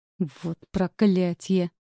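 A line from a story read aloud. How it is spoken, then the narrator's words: Through clenched teeth. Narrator (Russian): сцепив зубы, процедил Джеймс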